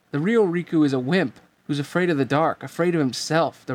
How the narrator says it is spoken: the replica shouted

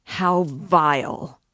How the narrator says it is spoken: a loud voice cried suddenly

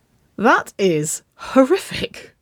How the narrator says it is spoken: she giggled

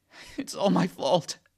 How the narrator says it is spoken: I whimper after what seems like an eternity of me leaking tears and snot everywhere

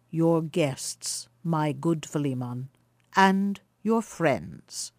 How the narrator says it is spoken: replied the elder traveller, in his mild, deep voice, that had something at once sweet and awe-inspiring in it

